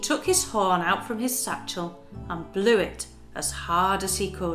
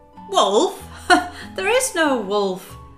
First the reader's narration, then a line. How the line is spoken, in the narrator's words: laughed the boy